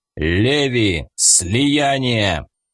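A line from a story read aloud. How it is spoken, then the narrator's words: Rough, menacing command. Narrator (Russian): я грубым и страшным голосом приказал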